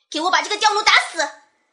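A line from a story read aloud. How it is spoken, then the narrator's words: Furious little girl. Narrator (Chinese): 小女孩怒气冲冲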